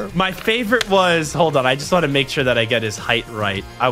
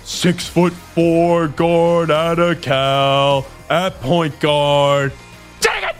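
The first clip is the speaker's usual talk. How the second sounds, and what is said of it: Loud booming announcer voice. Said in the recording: “He would scream it like that. Just be big announcer voice.”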